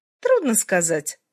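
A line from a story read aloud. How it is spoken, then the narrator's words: Thoughtful. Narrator (Russian): задумчиво сказала моя собеседница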